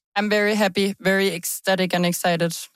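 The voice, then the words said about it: Enthusiastic, excited voice. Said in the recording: “I can tell the enthusiasm in your voice.”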